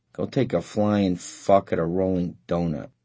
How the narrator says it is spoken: murmured Paul Lazaro

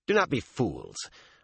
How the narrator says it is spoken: Avienda said in a firm voice

